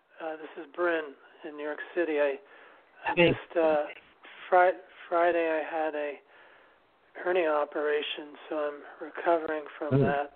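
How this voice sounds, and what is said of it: Voice sounds funny, off. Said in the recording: “Sorry, my voice is funny.”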